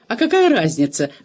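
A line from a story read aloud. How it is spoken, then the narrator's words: Shrill squeal. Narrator (Russian): взвизгнула Лиззи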